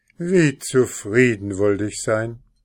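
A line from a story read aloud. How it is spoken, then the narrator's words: Sighing farmer. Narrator (German): seufzte der Bauer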